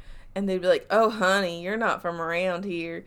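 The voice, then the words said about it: Southern accent. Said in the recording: “Except that's a very Southern accent. I don't know what I was doing.”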